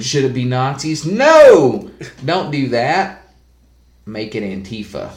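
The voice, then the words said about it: Put-on harder twang accent. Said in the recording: “your voice instantly gives the harder twang”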